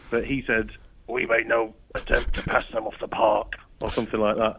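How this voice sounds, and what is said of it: Gruff Sean Dyche impression. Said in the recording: “we have to do it in a Sean Dyche voice ... I've got a bit of a cold, so I can sort of pull off the gruff voice a little bit”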